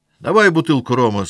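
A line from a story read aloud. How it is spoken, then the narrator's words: Drunken, determined shout. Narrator (Russian): закричал Пьер, решительным и пьяным жестом ударяя по столу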